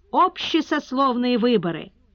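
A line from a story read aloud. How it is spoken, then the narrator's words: Shouting crowd. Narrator (Russian): Третьи кричали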